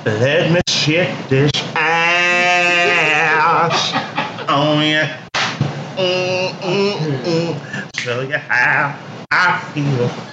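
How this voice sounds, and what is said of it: Put-on country twang and drawl. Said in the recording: “this country ass twang and drawl you put on it”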